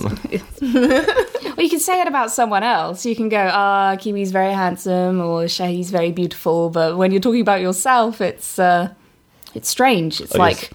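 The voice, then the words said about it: English accent. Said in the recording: “You do have an amazing accent, by the way. That's extremely sexy. ... the sexy English accent”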